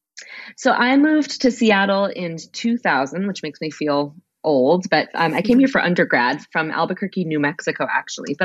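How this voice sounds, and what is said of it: Congested voice from a cold. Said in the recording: “I have a little bit of a cold. I know you said you do too”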